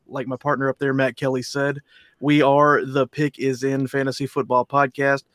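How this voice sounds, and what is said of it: South Texas accent. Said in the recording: “I love your accent. Where are you from? ... I'm from South Texas, right around the Victoria area.”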